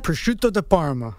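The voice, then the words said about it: Nice fancy accent. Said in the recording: “Say with the nice fancy accent.”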